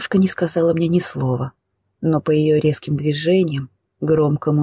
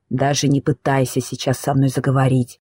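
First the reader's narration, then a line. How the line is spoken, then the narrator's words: Spiteful through teeth. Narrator (Russian): злобно процедила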